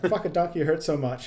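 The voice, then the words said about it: Imitates a character's weird accent. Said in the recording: “his accent gets really weird too”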